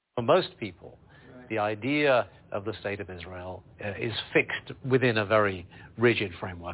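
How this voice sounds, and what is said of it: Charming foreign accent. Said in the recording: “he has a very charming accent, and he's speaking in such a manner”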